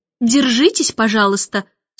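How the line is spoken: Stern reminder. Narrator (Russian): строго напомнила Мэри Поппинс

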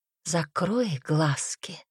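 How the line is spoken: Close seductive whisper. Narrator (Russian): шептал искуситель, обжигая дыханием ухо

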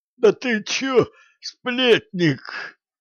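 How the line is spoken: Hoarse rasp. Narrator (Russian): прохрипел оборотень

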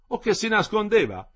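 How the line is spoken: Exclaiming. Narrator (Italian): esclamò il decano

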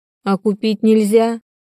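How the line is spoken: Whining. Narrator (Russian): проскулила

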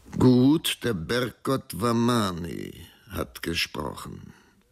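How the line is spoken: Plain. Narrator (German): sagte der Mann

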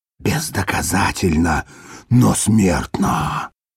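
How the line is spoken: Distinct whisper, loudspeaker. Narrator (Russian): отчетливо прошептал рупор

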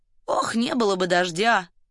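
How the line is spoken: Muttered. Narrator (Russian): пробормотал

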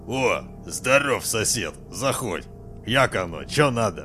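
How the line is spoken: Forced, at a loss. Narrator (Russian): Не найдя что внятно сказать, Олег лишь выдавил из себя

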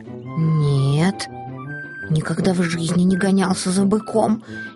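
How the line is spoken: Frightened kitten's reply. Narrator (Russian): испуганно ответил котенок

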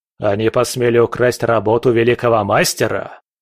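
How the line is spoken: Roaring, father. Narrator (Russian): взревел отец

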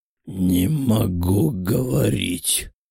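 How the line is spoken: Strained hoarse wheeze. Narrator (Russian): с огромным трудом просипела сущность

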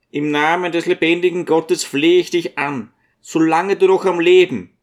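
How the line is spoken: Loud, breaking off suddenly. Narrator (German): rief Zacharia mit lauter Stimme und stockte plötzlich, ohne den Satz zu Ende zu bringen

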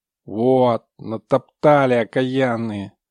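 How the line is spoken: Grumbled. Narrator (Russian): проворчала Аполлоновна

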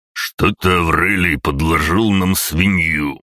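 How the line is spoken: Contemptuous booming voice. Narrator (Russian): презрительно меня глядев, прогремел горбатый

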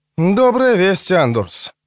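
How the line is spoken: Relieved sigh. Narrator (Russian): вздохнула она с облегчением

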